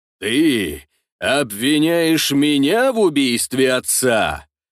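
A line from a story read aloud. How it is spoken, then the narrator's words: Booming voice. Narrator (Russian): прогремел голос Ростислава Юрьевича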